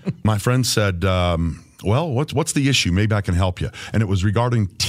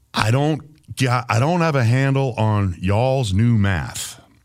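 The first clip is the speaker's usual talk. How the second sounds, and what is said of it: Bad imitation of a country accent. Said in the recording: “do a bad impersonation ... country”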